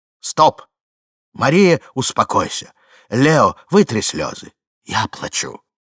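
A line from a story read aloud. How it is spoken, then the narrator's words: Firm, stern voice overhead. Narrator (Russian): над головами убедительно и строго прозвучало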